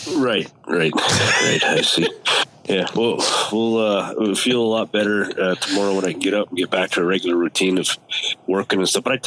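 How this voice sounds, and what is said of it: Congested head-cold voice. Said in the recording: “This head cold sound is the only thing that's wrong... you sound kind of stuck. You got that sexy voice kicking.”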